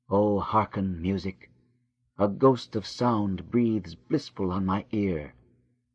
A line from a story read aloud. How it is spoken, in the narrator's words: She whispered